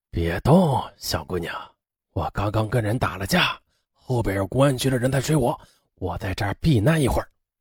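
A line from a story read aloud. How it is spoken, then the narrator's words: Low, threatening. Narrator (Chinese): 黑暗中的一个男子压低声音威胁他说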